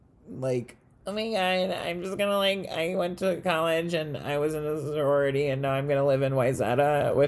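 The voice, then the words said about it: Stereotyped basic sorority girl voice. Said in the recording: “I sound like a basic white bitch.”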